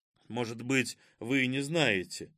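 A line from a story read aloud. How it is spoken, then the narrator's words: Grumble. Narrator (Russian): буркнул Кузьма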